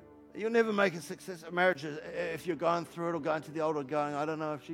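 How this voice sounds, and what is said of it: Usual voice. Nothing is said of it.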